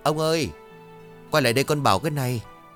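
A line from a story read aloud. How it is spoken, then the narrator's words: Sighing call. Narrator (Vietnamese): Người phụ nữ thở dài một tiếng đoạn gọi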